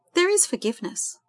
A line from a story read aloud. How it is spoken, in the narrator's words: Jess assured her earnestly